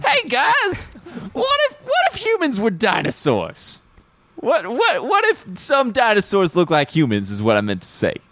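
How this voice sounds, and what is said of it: Imitates another person's voice. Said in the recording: “Good Baldwin impression.”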